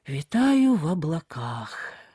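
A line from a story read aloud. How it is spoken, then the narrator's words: Said aloud. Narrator (Russian): сказал он вслух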